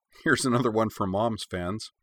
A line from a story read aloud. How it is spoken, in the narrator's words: She laughed, and said